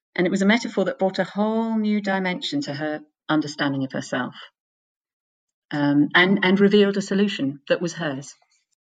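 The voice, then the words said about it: Noticeable accent. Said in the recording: “we just could listen to your voice and your accent all day long”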